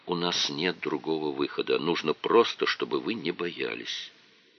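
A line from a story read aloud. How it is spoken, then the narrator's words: Quiet whisper. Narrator (Russian): тихо прошептал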